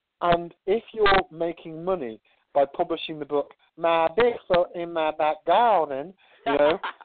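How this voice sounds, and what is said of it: English speaker doing Southern US accent. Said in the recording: “I like your southern accent. ... You got an English guy doing a southern accent.”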